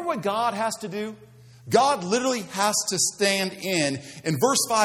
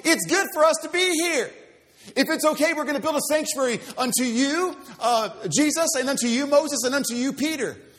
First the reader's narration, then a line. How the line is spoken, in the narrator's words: He blurts out